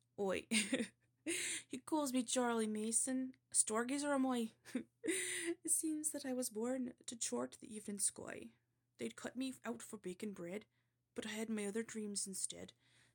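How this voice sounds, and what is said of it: Attempted West Country accent. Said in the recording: “this is a West Country accent, supposedly”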